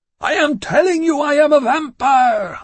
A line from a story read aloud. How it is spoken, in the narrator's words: I screamed suddenly